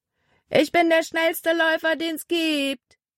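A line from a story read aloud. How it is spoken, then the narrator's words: Calling out to them. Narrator (German): rief er ihnen zu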